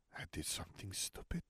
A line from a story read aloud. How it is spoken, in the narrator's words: she whispered